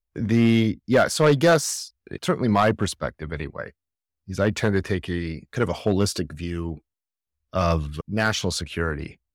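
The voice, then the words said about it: American accent. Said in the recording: “obviously your accent, you're based in the United States ... I am used to being told I have an accent”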